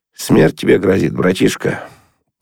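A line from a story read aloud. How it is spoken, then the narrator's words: Quiet. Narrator (Russian): Кучкин сказал тихо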